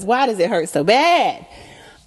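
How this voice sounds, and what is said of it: Imitates another person's voice. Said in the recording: “In my Whitney Houston voice”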